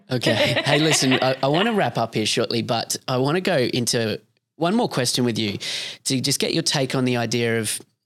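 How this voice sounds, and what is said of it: Australian accent. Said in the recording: “I've lent into my Australianness ... love your accent”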